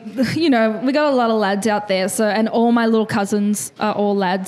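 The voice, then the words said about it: Australian accent. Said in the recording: “I'm a bit with the Aussie accent”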